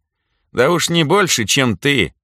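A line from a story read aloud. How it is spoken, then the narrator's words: Smirking retort. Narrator (Russian): хмыкнул в ответ Митька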